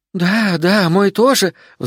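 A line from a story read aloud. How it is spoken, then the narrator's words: Agitated female voice. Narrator (Russian): взволнованно добавлял другой женский голос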